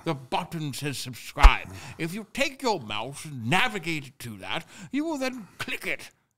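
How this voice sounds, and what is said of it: Put-on English accent. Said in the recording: “we're going to do it in a different impression and accent ... especially if you're English and you hate this accent ... I could hear how bad your teeth were in that accent.”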